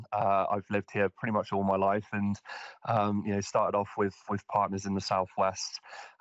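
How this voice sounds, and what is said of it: Thick West Country English accent. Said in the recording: “my very thick West Country accent,”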